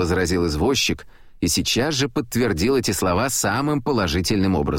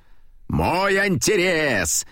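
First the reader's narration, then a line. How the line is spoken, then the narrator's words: Cheerful bellow, coachman. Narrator (Russian): весело заорал извозчик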